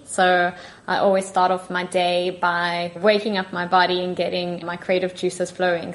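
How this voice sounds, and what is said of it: South African accent. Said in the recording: “my accent is from South Africa because I'm originally from there.”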